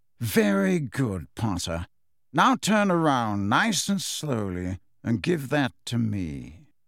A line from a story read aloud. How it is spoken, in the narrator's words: from right behind them, a drawling voice said